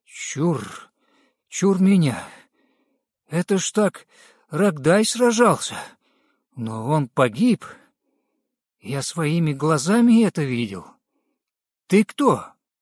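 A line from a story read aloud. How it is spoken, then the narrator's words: Trembling voice. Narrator (Russian): проговорил дрожащим голосом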